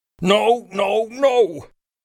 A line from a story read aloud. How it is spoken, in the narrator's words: I yelled